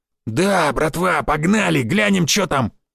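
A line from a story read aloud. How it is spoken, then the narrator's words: Barked. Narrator (Russian): рявкнул Барян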